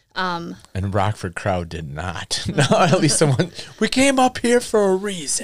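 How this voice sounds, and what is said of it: Put-on old-timey Southern accent. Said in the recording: “Southern accents ... That's an old timey accent. ... It's old timey.”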